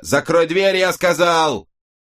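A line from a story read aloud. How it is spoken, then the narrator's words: Yelling. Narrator (Russian): заорал он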